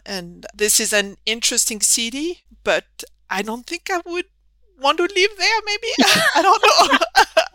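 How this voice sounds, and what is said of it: Southern French accent. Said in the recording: “I'm very much from the southern part of France, as you can tell from my funny accent.”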